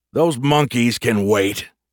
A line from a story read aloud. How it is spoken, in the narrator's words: Grumpy snapped